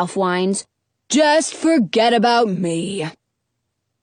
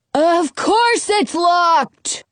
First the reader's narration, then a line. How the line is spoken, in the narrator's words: Ralph hollers